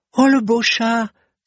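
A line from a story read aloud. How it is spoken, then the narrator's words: Little girl exclaiming. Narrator (French): s'écria la petite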